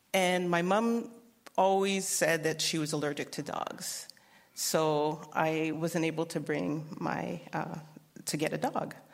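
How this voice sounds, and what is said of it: Canadian accent. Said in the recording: “I grew up in Winnipeg, Manitoba, Canada. So hear the accent.”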